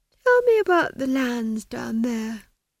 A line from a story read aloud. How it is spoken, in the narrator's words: she said lazily